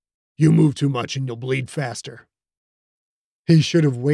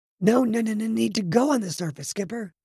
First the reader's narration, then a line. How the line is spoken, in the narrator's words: the Sklorno said, so softly Killian had to strain to hear